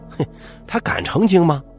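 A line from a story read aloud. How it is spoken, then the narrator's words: Group laughing heartily. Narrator (Chinese): 大家哈哈大笑说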